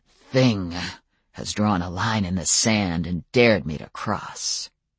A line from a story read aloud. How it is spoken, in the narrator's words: Adam's voice deepened into a rough growl